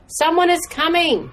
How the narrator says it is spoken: shouted

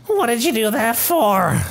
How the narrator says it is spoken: Sir Sam yell squeaks

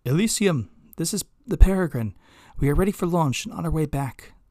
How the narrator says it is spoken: Annalie called out over the comms

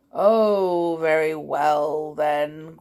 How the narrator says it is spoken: grumbled the bear

